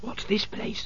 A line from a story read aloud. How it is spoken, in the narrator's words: she whispered